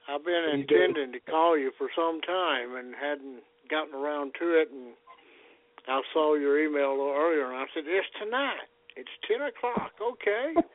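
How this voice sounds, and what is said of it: Southern US accent. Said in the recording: “can you hear that accent? ... he sounds just like me ... we're all good Southerners out here”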